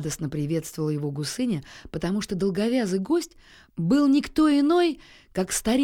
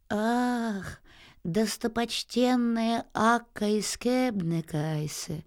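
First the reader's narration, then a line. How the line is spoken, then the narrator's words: Sad. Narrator (Russian): печально промолвил Аист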